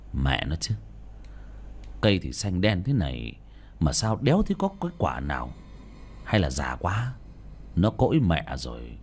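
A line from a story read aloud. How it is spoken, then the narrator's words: Muttered. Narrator (Vietnamese): ông lẩm bẩm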